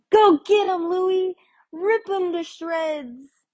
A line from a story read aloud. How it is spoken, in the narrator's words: Another hit of whiskey and I was ... shouting